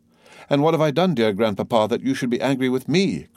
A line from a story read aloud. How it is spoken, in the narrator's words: cried Valentine